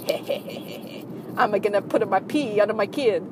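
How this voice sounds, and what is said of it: Bad fake Italian accent. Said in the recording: “I have the worst fake Italian accent. It's awful.”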